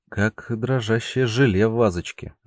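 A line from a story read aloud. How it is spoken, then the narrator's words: Uncertain. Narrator (Russian): неуверенно сравнил данный феномен Андрей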